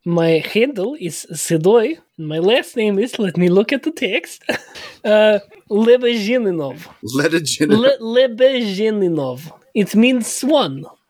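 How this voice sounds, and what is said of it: Thick put-on Russian accent. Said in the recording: “your thick Russian accent”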